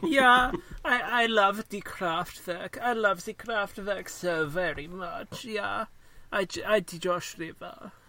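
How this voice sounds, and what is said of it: Imitates another person's voice, German-sounding. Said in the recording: “And I'm German for some reason. ... It's my very good impression of you. ... It was uncanny.”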